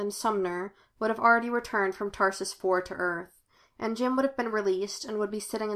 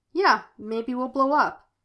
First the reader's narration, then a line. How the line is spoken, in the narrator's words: he said cheerfully